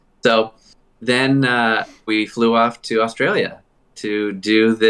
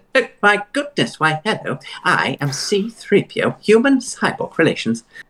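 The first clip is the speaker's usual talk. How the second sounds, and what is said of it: C-3PO voice impression. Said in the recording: “you can do the voice.”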